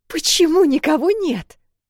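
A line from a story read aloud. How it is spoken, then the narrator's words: Nervous squeal. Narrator (Russian): нервно взвизгнула Эл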